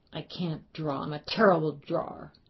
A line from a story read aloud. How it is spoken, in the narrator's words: He sputtered